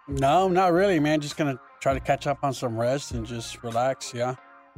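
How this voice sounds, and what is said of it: Tired, worn-out voice. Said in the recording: “I can hear it in your voice. You sound like you're ready for the weekend to start right this moment.”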